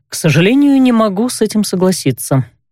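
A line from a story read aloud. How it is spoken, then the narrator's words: Dry reply. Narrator (Russian): сухо откликнулся тот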